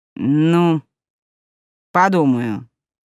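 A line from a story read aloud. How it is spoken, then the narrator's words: Old woman grumbling. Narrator (Russian): буркнула старушка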